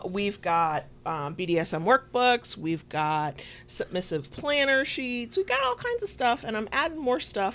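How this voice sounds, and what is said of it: Southern American accent. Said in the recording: “my southern accent, where pin and pin are the same damn thing.”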